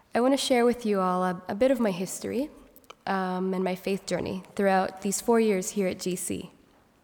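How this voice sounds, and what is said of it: Congested voice from a cold. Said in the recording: “I do have a cold, so my voice might be a little funny this morning.”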